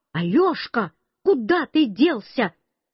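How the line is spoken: Grandmother shouting from behind. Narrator (Russian): Бабушка совсем сзади меня кричала

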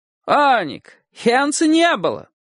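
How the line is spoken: Sudden loud interjection. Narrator (Russian): вдруг громким голосом вмешался богатый портной

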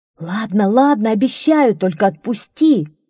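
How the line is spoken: Pleading. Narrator (Russian): взмолился Локи

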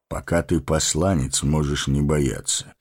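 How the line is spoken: Calm. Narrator (Russian): спокойно сказал Гэндальф

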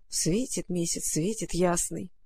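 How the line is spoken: Grumbling. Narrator (Russian): проворчала Маруся

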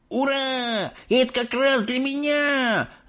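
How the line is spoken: Excited yell. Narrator (Russian): завопил Майк Телек

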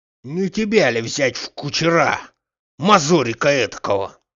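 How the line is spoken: Hoarse wheezing. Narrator (Russian): захрипел Захар

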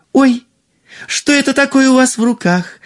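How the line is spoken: Exclamation. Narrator (Russian): воскликнула принцесса

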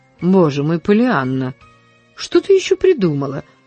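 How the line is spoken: Sighing. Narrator (Russian): вздохнула мисс Полли

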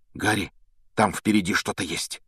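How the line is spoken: Sudden frightened whisper. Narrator (Russian): вдруг испуганным шепотом произнес Рон

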